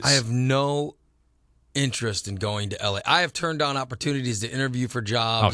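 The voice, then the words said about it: Midwest-inflected accent. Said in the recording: “a Midwest accent inflected Mexican American”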